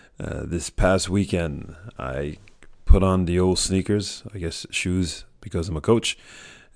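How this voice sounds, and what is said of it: Hoarse, strained voice. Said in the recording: “I apologize for my voice ... I lost my voice yelling through three games in 24 hours”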